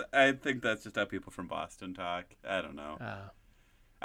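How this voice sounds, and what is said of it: Usual voice. Nothing is said of it.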